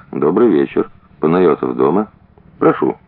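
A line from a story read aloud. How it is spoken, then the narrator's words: Quiet. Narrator (Russian): Сказал негромко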